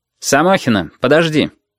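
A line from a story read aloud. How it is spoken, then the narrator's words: Sharp. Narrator (Russian): резко сказал Портнов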